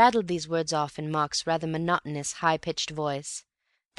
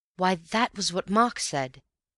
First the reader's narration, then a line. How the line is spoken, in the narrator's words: he cried